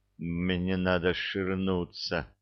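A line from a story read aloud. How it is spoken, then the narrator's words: Mumbling through clenched teeth. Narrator (Russian): промычал сквозь зубы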